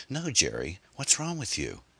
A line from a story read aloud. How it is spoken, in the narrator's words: Anne sputtered, her heart racing in her chest